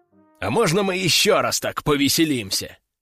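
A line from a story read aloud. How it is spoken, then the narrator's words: Joyful growl. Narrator (Russian): радостно прорычал залитый кровью берсерк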